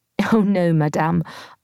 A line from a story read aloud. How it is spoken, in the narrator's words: I laughed